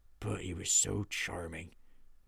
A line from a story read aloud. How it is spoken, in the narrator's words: muttered Beef